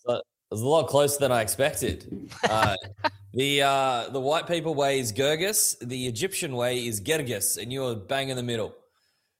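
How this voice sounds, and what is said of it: Australian accent, Sydney. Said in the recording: “That's a lovely accent you have there. New Jersey? ... not far off. It's Sydney, Australia.”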